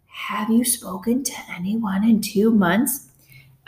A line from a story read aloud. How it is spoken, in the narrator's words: Jenna whispered